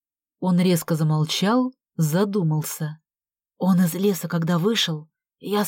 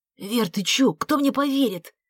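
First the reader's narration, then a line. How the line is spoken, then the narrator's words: Whisper. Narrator (Russian): зашептал Артем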